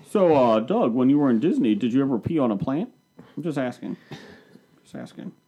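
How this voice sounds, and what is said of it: Imitates another person's voice. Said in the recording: “his Harvey Weinstein impersonation.”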